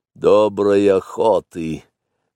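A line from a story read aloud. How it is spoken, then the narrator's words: Gloomy. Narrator (Russian): мрачно сказал Ка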